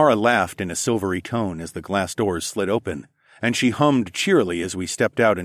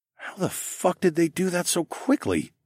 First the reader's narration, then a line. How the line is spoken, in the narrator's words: I muttered